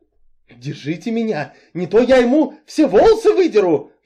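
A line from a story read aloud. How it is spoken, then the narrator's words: Shrill squeal. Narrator (Russian): взвизгнул Энси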